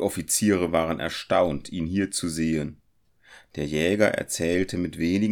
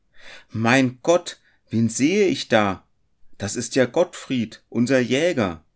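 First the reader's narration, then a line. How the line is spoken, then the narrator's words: Calling out. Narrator (German): sprang einer der Männer auf und rief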